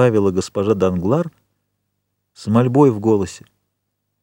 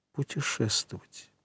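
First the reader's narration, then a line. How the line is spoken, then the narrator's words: Whisper. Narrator (Russian): прошептала госпожа Данглар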